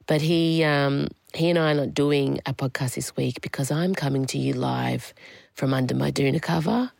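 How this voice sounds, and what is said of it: Sick-sounding, strained voice. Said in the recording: “I'm trying to put on a brave voice, but I don't think it's working. I've had COVID since last Friday.”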